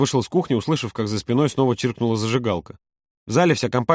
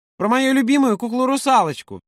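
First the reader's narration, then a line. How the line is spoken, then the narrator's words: Shrill squeal. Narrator (Russian): взвизгнула Олька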